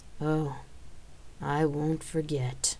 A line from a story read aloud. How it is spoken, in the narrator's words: I muttered under my breath